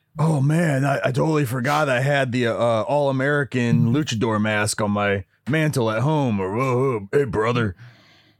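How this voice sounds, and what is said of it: Bad Hulk Hogan impression. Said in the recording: “really you know, bad impression act- of Hulk Hogan, by the way. ... Fucking terrible.”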